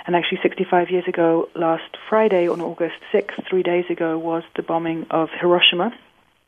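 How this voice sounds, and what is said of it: British accent. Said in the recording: “that's my British accent for you”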